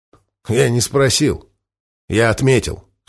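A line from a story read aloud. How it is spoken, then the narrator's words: Foreman's snort. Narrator (Russian): хмыкнул форман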